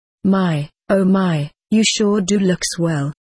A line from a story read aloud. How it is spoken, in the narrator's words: said